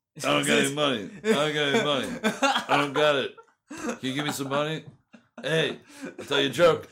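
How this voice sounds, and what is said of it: Imitates another person's voice. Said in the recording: “That's a good your brother imitation”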